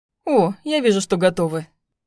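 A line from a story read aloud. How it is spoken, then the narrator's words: Chuckling. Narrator (Russian): хохотнул он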